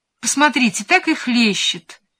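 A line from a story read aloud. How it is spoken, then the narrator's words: Agreeing chime-in. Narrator (Russian): поддакнула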